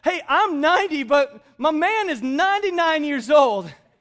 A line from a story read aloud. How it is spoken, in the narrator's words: she laughs and says